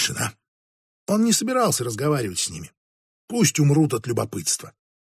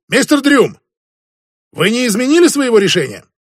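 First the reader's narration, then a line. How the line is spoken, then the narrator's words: Shouted. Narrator (Russian): Тавалан крикнул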